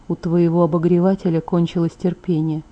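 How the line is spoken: Quiet explanation. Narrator (Russian): тихо объяснил Эдвард

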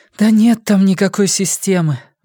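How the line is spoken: Sigh. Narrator (Russian): вздохнула Сага

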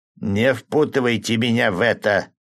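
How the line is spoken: Butcher's grumble. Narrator (Russian): проворчал мясник

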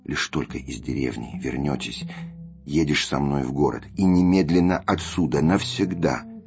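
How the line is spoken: Whisper. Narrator (Russian): Я шептал ему

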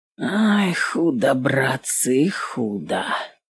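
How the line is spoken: Muttered. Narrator (Russian): пробормотал Степан

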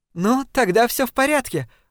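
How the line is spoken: Joyful exclaiming laugh. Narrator (Russian): воскликнула Дафни с радостным смехом

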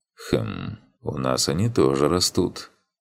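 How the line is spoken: Thoughtful drawl. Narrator (Russian): задумчиво протянул Иман

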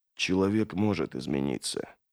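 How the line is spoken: Uncertain whisper. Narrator (Russian): прошептал Логин, не зная, кому он это говорит

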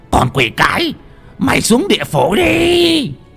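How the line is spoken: Hissing. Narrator (Vietnamese): lão rít lên

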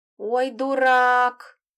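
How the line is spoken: Groaned. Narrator (Russian): простонал Мурополк

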